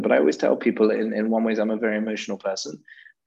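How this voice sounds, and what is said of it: British English accent. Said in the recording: “I'm pretty British. You might be able to tell from my accent, but I'm pretty English”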